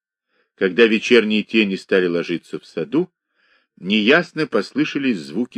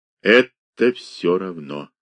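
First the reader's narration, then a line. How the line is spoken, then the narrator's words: Quiet, hesitant reply. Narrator (Russian): ответил монах, не сразу, тихим голосом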